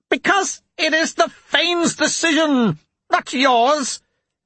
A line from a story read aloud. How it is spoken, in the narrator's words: Petrogar shouted